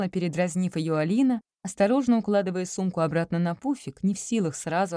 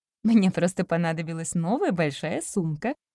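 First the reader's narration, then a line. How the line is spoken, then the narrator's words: Laughing. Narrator (Russian): засмеялась Полина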